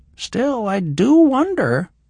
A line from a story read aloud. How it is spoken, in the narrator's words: the old woman said in an innocent voice